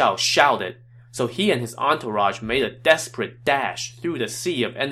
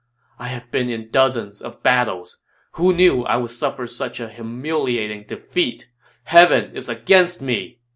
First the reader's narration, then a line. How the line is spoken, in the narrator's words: Yuan Shao sighed